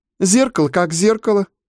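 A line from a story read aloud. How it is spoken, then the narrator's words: Scornful snort. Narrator (Russian): фыркнула старшая соплячка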